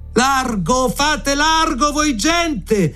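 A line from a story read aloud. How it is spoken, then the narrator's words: Guards shouting. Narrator (Italian): andavano gridando le guardie di giorno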